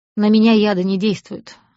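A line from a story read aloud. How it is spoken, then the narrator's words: Spiteful smirking reply. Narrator (Russian): ответил Лавьер и зло усмехнулся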